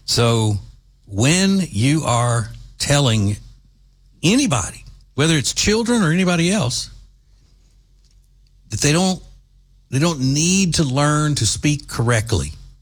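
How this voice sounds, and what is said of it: Southern American accent. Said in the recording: “having a Southern accent ... whenever they heard my accent”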